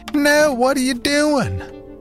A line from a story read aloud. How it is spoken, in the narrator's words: But her voice was distant and unimportant